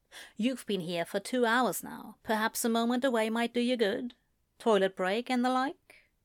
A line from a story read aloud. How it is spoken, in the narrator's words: she said quietly in his ear